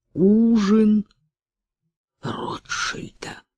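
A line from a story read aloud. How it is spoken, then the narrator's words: Sick, weak voice. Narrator (Russian): проговорил больным голосом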